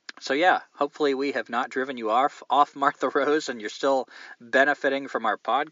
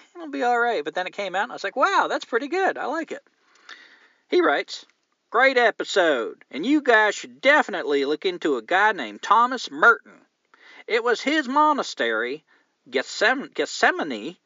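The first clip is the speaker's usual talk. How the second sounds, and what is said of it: Put-on southern accent. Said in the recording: “Here's where I get to use my southern accent”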